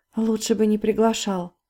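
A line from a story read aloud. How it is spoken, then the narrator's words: Muttering. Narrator (Russian): пробормотала Полина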